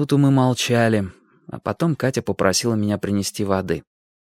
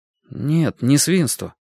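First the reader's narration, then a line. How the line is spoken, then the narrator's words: Confused objection. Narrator (Russian): возразил я растерянно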